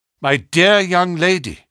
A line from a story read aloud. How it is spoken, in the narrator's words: cried Holmes earnestly